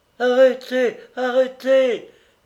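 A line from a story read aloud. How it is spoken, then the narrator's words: Breathless moaning. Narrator (French): gémit-elle encore, à bout d'haleine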